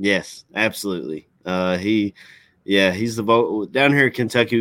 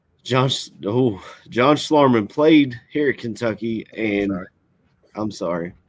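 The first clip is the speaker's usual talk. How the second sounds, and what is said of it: Choked up, tearful voice. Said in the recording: “I'm gonna get choked up here ... I didn't think I was going to cry here”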